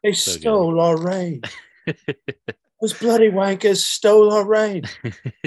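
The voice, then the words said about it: Put-on British accent. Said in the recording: “the Spinal Tap reference, the British accent”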